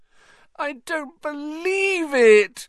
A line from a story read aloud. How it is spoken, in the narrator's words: Hermione wailed